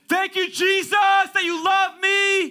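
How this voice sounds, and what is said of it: Put-on pious praying voice. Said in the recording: “they become a different person. They develop an accent.”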